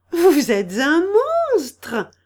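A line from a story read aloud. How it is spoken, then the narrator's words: Laughing like a girl. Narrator (French): s'exclama en riant comme une petite fille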